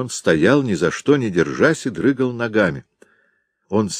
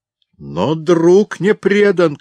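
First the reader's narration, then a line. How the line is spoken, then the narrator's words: Father's shout. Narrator (Russian): крикнул отец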